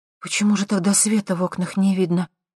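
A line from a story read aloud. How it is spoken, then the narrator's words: Suddenly trembling voice. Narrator (Russian): спросила Лера внезапно дрогнувшим голосом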